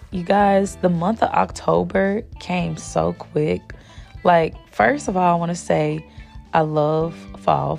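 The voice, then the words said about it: Raspy voice from a cold. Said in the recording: “excuse my voice. If it sounds more raspy than usual, it's because I'm getting over a cold.”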